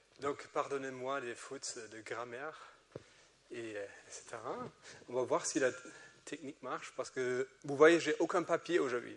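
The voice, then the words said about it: German accent in French. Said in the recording (French): “j'ai un accent allemand parce que je suis allemand”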